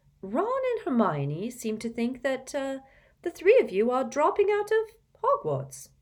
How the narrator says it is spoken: she began in a light, casual tone

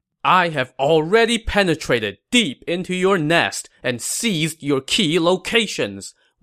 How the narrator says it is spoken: Wei Yan shouted sternly from his horse

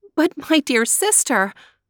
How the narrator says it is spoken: Maruschka gasped

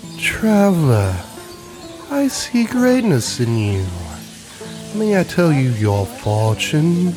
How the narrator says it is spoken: In a languid voice she spoke

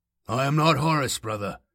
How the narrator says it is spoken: said softly

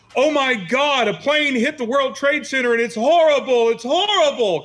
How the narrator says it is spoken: And all of a sudden, Anthony just yells out

